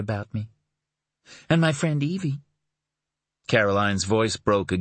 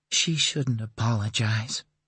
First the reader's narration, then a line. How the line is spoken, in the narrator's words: she said, her voice husky